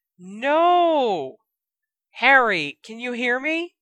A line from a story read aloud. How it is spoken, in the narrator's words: cried a girl's voice, right near his ear